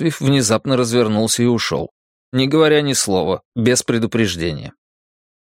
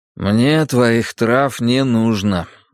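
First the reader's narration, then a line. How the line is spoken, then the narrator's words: Tired declaration. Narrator (Russian): заявил Драккайнен устало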